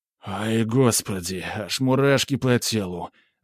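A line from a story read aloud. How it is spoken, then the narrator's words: Breathless exhale. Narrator (Russian): выдохнул Геннадий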